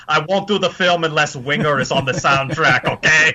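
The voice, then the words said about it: Poor imitation of another person's voice. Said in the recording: “piss-poor Arnold impersonation”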